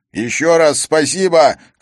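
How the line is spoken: Shouted. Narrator (Russian): крикнул он пилоту

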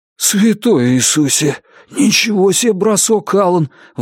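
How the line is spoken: Breathless exclamation. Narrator (Russian): выдохнул Джон

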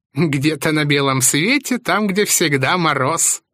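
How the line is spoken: Giggling craftsman. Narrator (Russian): хихикнул умелец

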